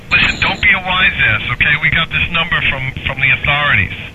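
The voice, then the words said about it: Electronically distorted voice. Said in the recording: “you're using a voice changer... Turn off the voice distorter”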